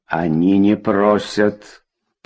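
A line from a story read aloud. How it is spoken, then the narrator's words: Growling. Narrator (Russian): прорычала Кока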